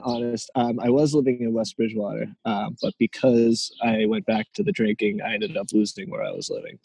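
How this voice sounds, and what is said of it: Boston-area Massachusetts accent. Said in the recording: “you can't hide the fact that you're from Massachusetts, close to Boston, if you tried ... accent of yours”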